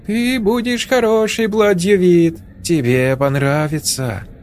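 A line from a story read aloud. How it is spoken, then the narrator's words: Singing in thin voice. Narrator (Russian): она запела тоненьким голоском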